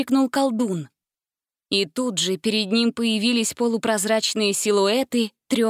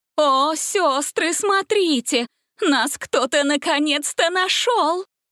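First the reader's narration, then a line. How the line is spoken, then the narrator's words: Joyful exclamation. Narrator (Russian): радостно воскликнула Бастинда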